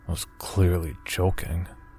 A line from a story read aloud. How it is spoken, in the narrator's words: I growled under my breath